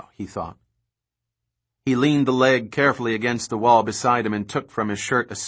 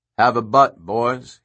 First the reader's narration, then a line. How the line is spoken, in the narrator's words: he said, his voice sudden and loud in the silence